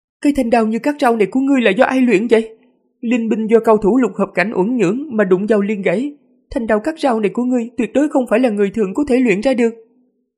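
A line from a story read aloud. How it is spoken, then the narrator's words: Frightened monster cry. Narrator (Vietnamese): Quái vật kêu lên sợ hãi, nói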